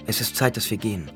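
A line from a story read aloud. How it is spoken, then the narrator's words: Plain. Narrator (German): sagte Chani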